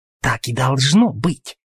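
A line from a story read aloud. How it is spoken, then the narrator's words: Hiss. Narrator (Russian): прошипел Дьюк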